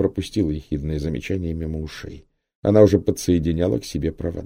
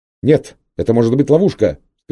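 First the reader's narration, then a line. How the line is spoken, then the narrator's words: Shouting. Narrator (Russian): кричал Гальтон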